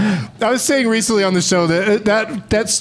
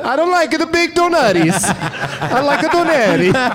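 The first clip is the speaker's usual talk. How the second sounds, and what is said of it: Exaggerated mock Italian accent. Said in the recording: “stupid Italian accent”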